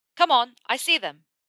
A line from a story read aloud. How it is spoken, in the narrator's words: Ron shouted in his ear